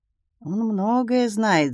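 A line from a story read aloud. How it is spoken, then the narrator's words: Thoughtful. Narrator (Russian): задумчиво сказал Томми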